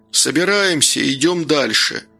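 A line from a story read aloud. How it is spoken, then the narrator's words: Shout across clearing. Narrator (Russian): Гордей крикнув через полянку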